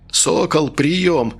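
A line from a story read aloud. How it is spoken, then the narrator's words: Hoarse, voice breaking with emotion. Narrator (Russian): прохрипел в рацию Чумаков, и голос его сорвался от волнения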